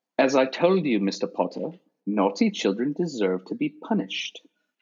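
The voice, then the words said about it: Imitates a film character's accent. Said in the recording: “I'm going to do my best not to butcher the accent. I'm fairly certain because of the accent”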